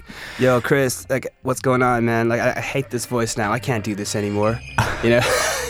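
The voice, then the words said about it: Put-on Californian American accent. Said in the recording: “Californian accent? ... The unmistakable Californian accent there”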